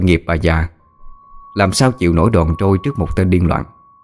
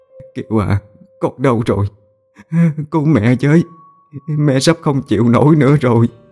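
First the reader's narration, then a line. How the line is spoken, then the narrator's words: Sobbing call. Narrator (Vietnamese): Bà nức nở gọi tên con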